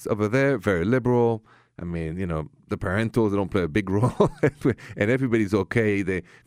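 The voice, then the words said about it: French accent. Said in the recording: “from my accent, I come from Paris, France”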